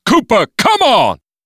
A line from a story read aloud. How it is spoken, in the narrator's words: Clarence stopped only long enough to shout over his shoulder